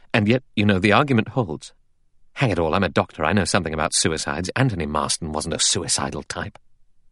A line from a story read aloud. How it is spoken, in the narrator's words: Armstrong said gravely